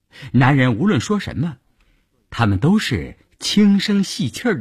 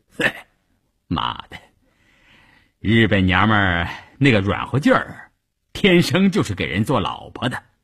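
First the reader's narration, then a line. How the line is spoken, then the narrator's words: Laughing. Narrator (Chinese): 笑着 说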